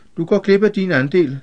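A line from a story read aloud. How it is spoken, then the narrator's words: Calm. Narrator (Danish): sagde Pierce roligt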